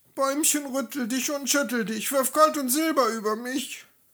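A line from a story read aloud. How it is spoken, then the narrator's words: Sobbing cry. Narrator (German): rief schluchzend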